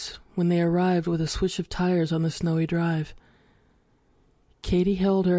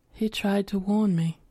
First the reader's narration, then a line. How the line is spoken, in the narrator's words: in a flat voice, she said